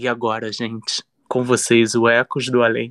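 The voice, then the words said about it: Radio announcer voice. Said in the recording (Portuguese): “Vou fazer igual a Marcelo, que faz voz de locutor ... igual radialista”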